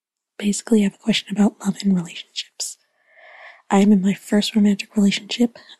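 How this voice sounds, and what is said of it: Whispering. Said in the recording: “I'm whispering because my parents are about to fall asleep.”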